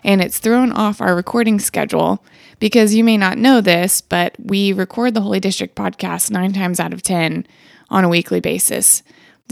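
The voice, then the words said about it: Slightly sick-sounding voice. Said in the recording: “We've had a little round of sickness in my household this week. You might actually kind of hear that in my voice”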